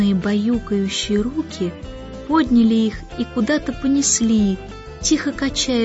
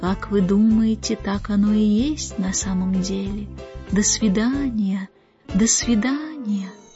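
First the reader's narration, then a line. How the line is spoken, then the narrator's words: Distant, very soft whisper. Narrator (Russian): далекий голос, как сон, как легкое дуновение ветерка, тихо-тихо шептал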